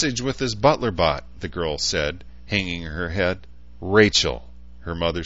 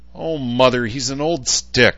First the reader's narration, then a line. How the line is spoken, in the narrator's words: the girl snapped